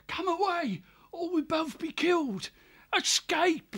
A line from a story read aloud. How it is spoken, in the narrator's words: the kestrel cried into his ear